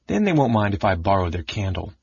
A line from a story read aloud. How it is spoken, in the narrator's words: the Kinder said to himself happily